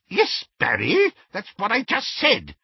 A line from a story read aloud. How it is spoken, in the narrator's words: said Auntie Muriel testily